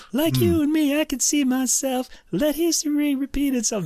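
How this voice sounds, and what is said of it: Imitates another person's singing voice. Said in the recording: “that was my Maurice Gibb imitation.”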